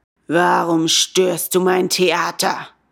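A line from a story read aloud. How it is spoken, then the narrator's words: Rough, creepy roaring bellow. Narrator (German): brüllte der Direktor den Bengele an und seine Stimme war so rau und gruselig wie die eines Menschenfressers, wenn er den Schnupfen hat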